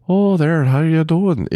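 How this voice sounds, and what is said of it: Weak attempt at Irish accent. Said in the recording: “that beautiful Irish accent ... I can't do it right”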